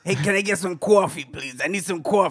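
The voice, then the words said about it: Put-on New York accent. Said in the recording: “you got to have the New York accent”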